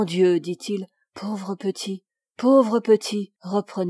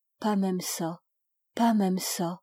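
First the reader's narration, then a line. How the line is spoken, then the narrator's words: Muffled low voice. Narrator (French): Il parlait d'une voix sourde, il dit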